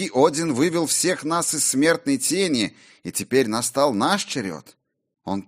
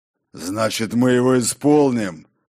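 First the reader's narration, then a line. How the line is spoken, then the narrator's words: Growl. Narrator (Russian): прорычал Тор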